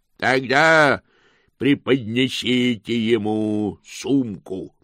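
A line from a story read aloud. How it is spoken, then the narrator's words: Thundering voice from aside. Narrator (Russian): прогремел голос в стороне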